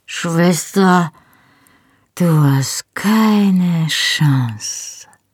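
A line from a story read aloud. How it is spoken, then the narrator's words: Slurred speech. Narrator (German): lallte ich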